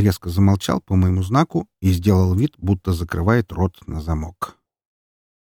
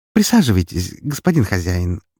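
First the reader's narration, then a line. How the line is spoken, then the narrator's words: Cheerful smiling offer. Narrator (Russian): предложила весело улыбающаяся Айша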